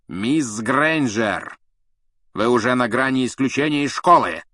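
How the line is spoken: Barked. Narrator (Russian): рявкнул Снег

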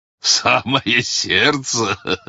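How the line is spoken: Robber's loud laughter. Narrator (Russian): захохотал разбойник

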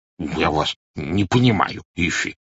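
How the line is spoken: Muttering. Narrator (Russian): пробормотал он

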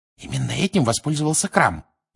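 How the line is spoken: Whisper. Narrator (Russian): прошептала Гермиона

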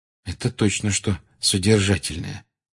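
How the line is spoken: Undertone. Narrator (Russian): вполголоса заметила Гермиона

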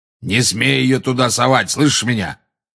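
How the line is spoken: Roaring. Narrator (Russian): проревел Грюм

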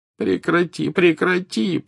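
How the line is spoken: Moaned. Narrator (Russian): простонал Дамблдор

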